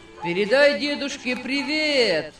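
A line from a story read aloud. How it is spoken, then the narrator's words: Shouted after someone. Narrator (Russian): Крикнули они ему вслед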